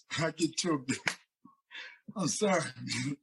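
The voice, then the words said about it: Choked-up, emotional voice. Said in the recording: “I can always get choked up when I talk about that guy”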